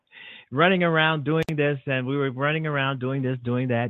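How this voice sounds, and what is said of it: Out of breath, tired voice. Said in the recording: “I'm out of breath. I can't fake it. ... almost out of breath, tired.”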